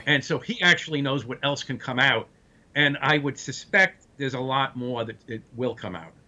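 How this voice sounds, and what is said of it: Brooklyn accent. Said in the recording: “complete with the Brooklyn accent and the Brooklyn attitude”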